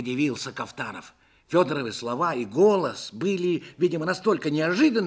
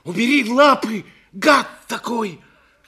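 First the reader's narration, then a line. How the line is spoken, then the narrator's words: Furious shout. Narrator (Russian): закричал, не помня себя от гнева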